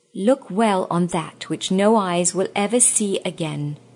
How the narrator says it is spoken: said the queen

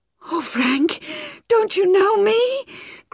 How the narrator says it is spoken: cried the girl desperately

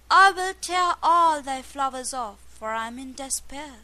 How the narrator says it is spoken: cried out to Death

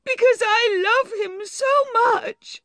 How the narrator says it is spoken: she cried miserably

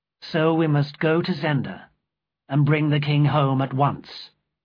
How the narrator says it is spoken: I said

